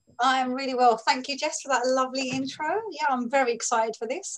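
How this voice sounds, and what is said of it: London English accent. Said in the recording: “Maybe it's because you're from London. Maybe it's because you have the most gorgeous accent on the planet.”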